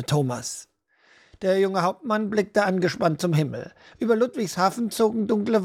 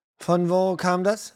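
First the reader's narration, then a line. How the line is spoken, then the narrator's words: Plain. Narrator (German): fragte Daniel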